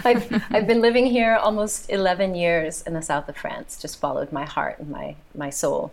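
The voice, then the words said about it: American accent. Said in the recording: “you can tell by my accent, I'm the American here”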